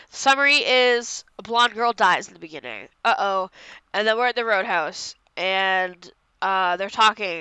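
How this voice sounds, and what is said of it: Congested, stuffy nasal voice. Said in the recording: “I'm so congested and I sound like a little monster”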